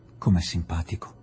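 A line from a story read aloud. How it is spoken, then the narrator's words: Murmured. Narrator (Italian): mormorò Adela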